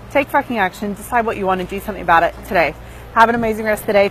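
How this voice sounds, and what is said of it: Out of breath, talking fast. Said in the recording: “out of breath from talking too fast from working, well, while walking”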